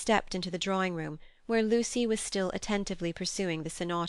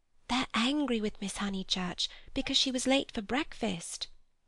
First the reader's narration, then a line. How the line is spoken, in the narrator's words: whispered Minnie